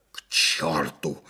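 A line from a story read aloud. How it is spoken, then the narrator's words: Hoarse wheeze. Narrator (Russian): захрипел майор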